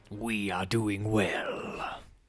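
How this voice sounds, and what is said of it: Imitates a movie character's voice. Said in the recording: “the flawless impersonation of Eddie Brock / Venom”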